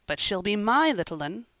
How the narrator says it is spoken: said Marner, rather hastily

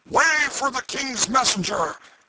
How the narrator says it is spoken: a voice shouted

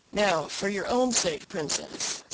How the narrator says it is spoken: said he

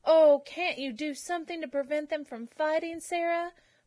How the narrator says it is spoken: pleaded Cicely

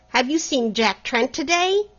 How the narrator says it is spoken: the latter cried

